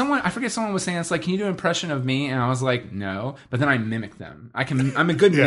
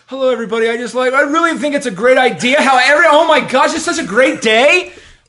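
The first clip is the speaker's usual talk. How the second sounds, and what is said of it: Imitated voice, growing louder. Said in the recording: “here's my impression of you ... Like, it just gets louder.”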